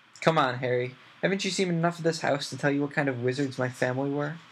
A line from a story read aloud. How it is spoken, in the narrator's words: said Sirius testily